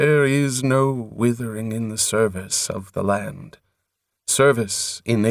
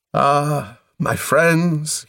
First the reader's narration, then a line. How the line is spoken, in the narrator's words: he cried